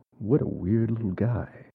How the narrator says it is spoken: he just kind of mutters to himself

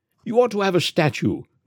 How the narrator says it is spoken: cried the Canadian, as he came back radiant

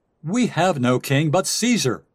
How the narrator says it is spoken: they cried out

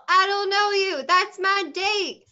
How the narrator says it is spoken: The V's gonna yell

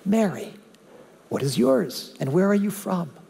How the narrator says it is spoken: Her questions were very direct, but her tone was mild

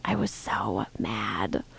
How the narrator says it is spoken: Her eyebrows are heavily creased when she shakes her head and says quietly again

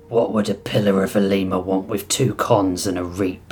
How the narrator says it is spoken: Oryx sneered, no lover of the pillars after what they had done to the spliced

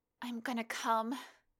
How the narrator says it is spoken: cried out

